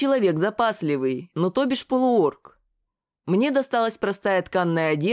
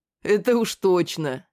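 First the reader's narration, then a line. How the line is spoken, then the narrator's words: Booming laugh. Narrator (Russian): Снова громогласно хохотнул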